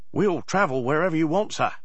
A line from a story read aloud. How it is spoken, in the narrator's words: he cried